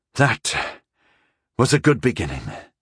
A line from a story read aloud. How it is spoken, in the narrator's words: I sighed heavily